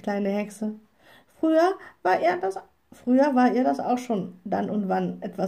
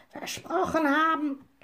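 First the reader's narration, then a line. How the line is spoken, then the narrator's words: Croaking raven. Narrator (German): krächzte der Rabe Abraxas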